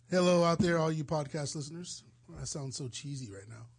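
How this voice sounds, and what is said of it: Naturally raspy voice. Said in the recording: “You sound raspy... Why are you so raspy... It's a natural rasp. It's always been there.”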